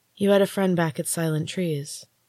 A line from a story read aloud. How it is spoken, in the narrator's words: asked softly